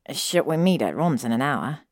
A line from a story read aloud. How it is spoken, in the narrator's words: Draco groaned